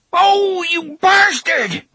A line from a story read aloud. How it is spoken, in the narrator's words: Brandon shouted in surprise and pain